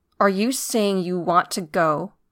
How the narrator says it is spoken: Nailbiter asked, and her voice was hard, the hisses and whistles sharper

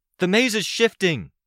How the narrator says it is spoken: hollered down

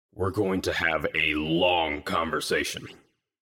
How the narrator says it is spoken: Gru spoke, his tone low and menacing

